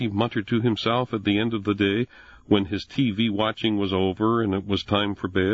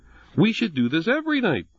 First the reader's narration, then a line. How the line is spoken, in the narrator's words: chirped his mother